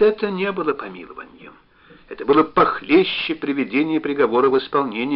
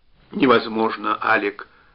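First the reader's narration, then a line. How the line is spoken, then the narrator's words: Dull, muffled reply. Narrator (Russian): глухо ответил Штуб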